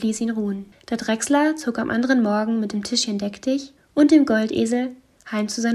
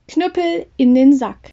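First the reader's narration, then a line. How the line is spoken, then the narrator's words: Call. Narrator (German): rief er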